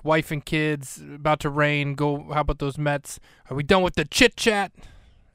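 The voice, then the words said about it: Put-on New York accent. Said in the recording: “I don't know why I'm giving Lomax such a New York accent”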